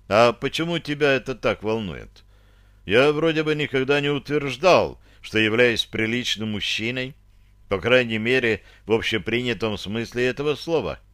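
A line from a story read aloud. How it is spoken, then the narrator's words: Sigh, feigned indifference. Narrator (Russian): глубоко вздохнул, беря себя в руки, и нарочито равнодушно спросил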